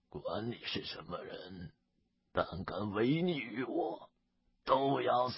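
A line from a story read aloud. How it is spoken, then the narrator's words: Cold sneer, icy voice. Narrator (Chinese): 忽的冷笑一声，寒声道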